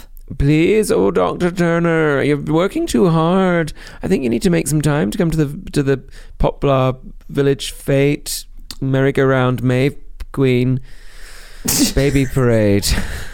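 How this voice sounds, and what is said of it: Performs a female TV character voice. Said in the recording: “We could do the voices, which of course we're very good at doing now ... my Mrs. Turner from Call the Midwife, Dr. Turner's wife.”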